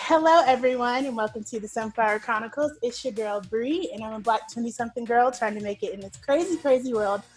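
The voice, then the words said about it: Excited, upbeat voice. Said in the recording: “I'm so excited, if you can't tell in my voice”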